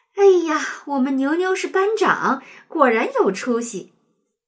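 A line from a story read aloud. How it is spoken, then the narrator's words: Joyful mother. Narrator (Chinese): 妈妈非常开心…喜笑颜开地说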